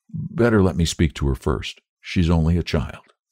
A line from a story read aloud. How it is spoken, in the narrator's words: begged in a whisper